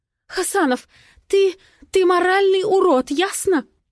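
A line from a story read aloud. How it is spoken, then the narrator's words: Sobbing. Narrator (Russian): всхлипывает она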